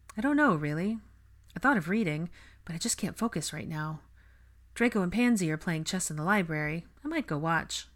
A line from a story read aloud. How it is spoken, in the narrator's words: Hermione answered in a dull voice